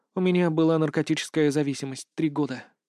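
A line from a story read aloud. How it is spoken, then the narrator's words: Trembling voice. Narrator (Russian): дрожащим голосом начинает она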